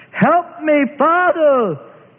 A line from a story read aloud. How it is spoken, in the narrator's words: he cried out